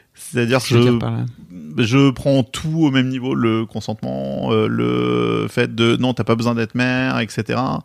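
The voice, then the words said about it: Bordeaux French accent. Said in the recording (French): “j'ai un accent bordelais pour tout le monde, je sais que ça choque ... Je dis rose, chauve, jeune.”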